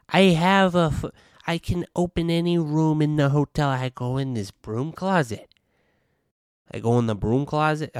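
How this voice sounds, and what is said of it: Poor imitation of another person's voice. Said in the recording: “This is a terrible Trump accent... It's giving me like Sebastian Maniscalco.”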